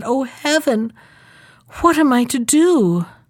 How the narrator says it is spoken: the princess was compelled by her thirst to get down, she cried and said

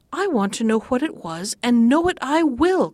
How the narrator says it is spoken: cried she

